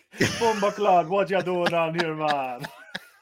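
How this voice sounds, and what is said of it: Put-on Jamaican patois accent. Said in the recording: “it's a Jamaican accent he's trying. He's like trying to speak patois”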